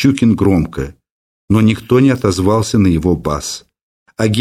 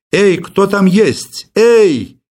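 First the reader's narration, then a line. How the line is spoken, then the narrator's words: Shouting. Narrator (Russian): кричал Щукин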